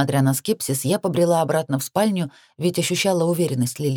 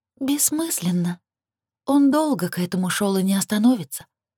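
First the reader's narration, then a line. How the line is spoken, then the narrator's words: Sad. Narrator (Russian): грустно произнесла Лилит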